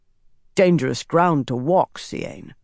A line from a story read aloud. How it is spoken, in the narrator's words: Saren said, her voice gruff